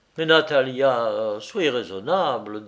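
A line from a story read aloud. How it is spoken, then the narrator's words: Pleading tone. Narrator (French): dis-je d'un ton suppliant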